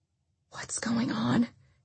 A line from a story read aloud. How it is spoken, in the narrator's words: Carrie said quietly